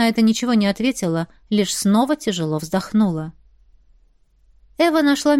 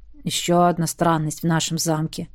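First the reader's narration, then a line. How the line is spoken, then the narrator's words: Grumbled. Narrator (Russian): проворчал Зак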